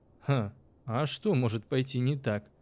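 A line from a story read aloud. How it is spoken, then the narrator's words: Laughing. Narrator (Russian): засмеялся учитель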